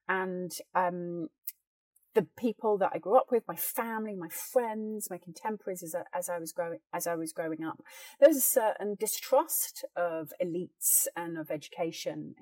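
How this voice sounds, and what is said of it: Plummy upper-class British accent. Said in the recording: “this very plum British accent ... I could not be more sort of plummy,”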